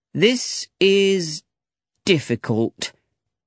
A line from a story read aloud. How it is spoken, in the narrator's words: he said slowly